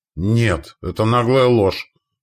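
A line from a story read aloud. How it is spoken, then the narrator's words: Through gritted teeth. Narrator (Russian): процедил сквозь зубы он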